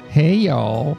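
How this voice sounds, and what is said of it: Southern drawl. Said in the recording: “It's that Southern drawl.”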